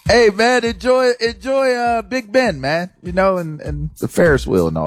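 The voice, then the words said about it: Bad put-on accent. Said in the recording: “That is such a bad accent. It's offensive.”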